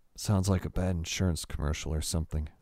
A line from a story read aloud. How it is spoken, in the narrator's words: Adam grumbled